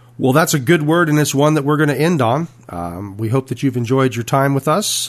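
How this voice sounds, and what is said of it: Slightly rough voice. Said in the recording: “my voice is a little rough”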